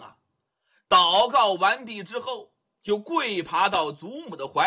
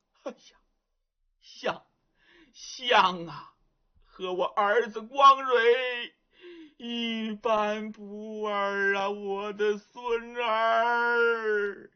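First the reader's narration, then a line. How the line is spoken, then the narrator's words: Weeping bitterly. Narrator (Chinese): 祖孙二人又是抱头痛哭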